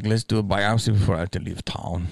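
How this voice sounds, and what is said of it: Put-on accent imitating a doctor. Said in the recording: “I'm giving a different accent than the accent that he has.”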